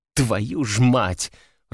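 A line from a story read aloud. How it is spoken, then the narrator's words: Growl. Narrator (Russian): рыкнула Катя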